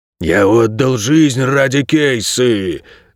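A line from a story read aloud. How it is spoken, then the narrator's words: Dog moaning. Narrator (Russian): простонал пес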